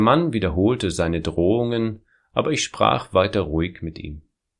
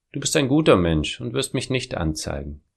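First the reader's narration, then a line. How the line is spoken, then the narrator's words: Calm, unafraid. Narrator (German): hatte ich keine Angst und sagte ruhig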